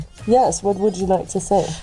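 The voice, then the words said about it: Muffled voice. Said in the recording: “why she sounds so muffled ... she's muffled as a horse”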